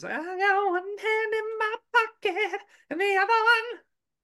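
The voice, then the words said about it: Sung imitation of another person's voice. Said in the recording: “it was a good little Alanis impression”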